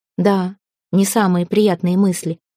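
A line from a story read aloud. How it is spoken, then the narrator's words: Serious tone. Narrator (Russian): отозвался он серьезным тоном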